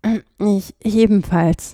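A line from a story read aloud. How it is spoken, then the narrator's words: Cracked, breaking voice. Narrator (German): sagte er mit brüchiger Stimme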